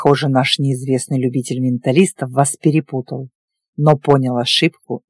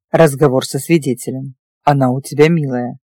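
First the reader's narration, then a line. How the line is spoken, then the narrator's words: Snort. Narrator (Russian): хмыкнул он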